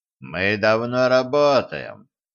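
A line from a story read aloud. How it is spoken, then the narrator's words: Mocking tone. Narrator (Russian): насмешливо сообщил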